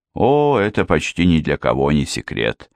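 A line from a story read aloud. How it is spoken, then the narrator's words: Sighed. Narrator (Russian): вздохнула Эрминтруда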